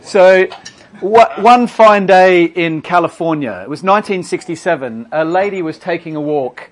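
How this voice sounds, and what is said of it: Australian accent. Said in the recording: “I'm Australian, in case you're wondering what the accent is.”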